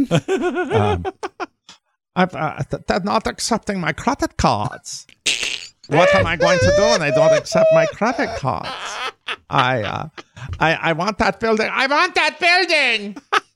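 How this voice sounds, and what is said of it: Anna Delvey accent impression. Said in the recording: “her Anna Delvey accent”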